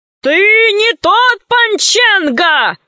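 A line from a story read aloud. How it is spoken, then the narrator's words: Shouted. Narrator (Russian): закричал адмирал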